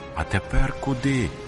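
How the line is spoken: Sighing. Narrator (Ukrainian): зітхнула Рахиль

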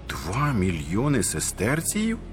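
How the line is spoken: Amazed exclamation. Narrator (Ukrainian): вигукнув зачудовано Доміціан

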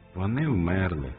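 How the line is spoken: Sad. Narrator (Ukrainian): мовила сумно Нехушта

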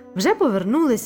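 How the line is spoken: Exclaimed. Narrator (Ukrainian): вигукнув Луїс

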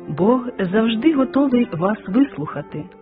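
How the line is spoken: Plain. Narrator (Ukrainian): сказав проповідник

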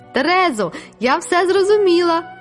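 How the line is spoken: Exclaiming. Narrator (Ukrainian): вигукнула я

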